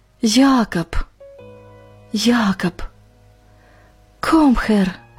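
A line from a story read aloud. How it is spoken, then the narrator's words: Barely audible German whisper. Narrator (Russian): Иван чуть слышно шепча по-немецки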